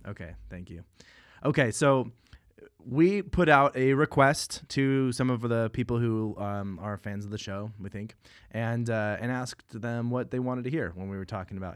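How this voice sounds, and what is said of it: Scratchy, strained voice. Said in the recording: “my voice sounds a little bit different... I kind of used up my voice, so it's a little scratchy... grating on the ears”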